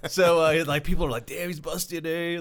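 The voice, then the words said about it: Put-on Oxnard local accent. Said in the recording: “it was in Oxnard, so that's why I have that accent”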